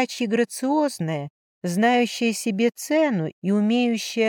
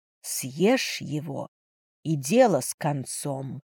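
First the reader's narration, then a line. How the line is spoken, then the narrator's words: Inner dark whisper. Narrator (Russian): прошептала тьма внутри меня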